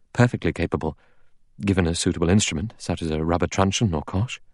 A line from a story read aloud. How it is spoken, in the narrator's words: The doctor said calmly